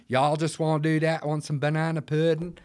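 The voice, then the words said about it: Fake American accent. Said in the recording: “I'm doing a fake American accent.”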